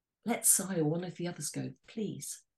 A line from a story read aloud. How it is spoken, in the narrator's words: She whispered so the children wouldn't hear